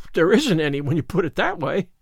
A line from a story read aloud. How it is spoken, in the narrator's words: gasped Anne, rather as if somebody had thrown cold water over her